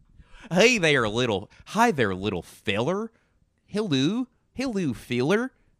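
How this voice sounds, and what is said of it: Put-on Midwestern American accent. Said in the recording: “Midwestern accent in the United States is very similar to Canadian ... That's my Midwestern accent.”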